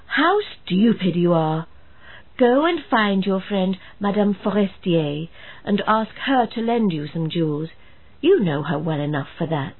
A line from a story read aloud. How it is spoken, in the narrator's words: her husband exclaimed